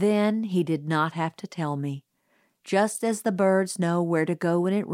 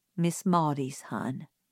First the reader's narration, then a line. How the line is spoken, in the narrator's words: said Atticus gently